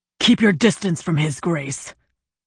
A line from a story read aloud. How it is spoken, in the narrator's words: Zhu growled